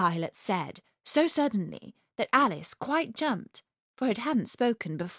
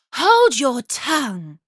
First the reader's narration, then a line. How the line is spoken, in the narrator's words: cried the tiger lily